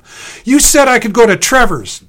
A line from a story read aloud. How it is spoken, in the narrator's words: wailed